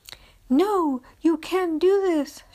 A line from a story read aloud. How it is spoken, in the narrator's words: pleaded